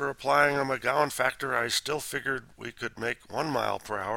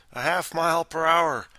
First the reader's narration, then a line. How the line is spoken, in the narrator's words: Mike cried